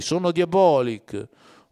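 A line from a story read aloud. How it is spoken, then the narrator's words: Shouting. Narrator (Italian): gridando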